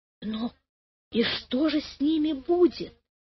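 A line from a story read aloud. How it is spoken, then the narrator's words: Whispered question. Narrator (Russian): спросила она почему-то шепотом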